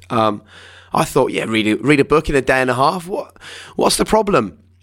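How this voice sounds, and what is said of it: Strained, tired voice. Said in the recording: “my voice is struggling ... we're struggling slightly with our voices ... Now I can hardly talk. I can't shout at the kids.”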